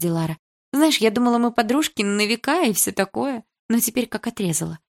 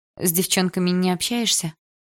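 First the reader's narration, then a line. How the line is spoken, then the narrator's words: Sighing. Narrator (Russian): вздохнула я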